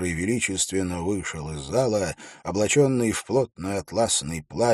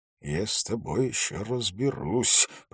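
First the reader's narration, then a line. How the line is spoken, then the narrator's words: Muttered. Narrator (Russian): пробормотал Холт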